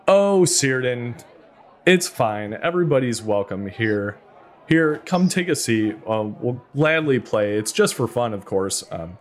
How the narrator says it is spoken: The woman just kind of laughs and says

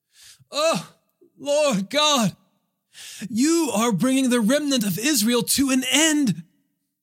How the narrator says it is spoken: cried out loudly

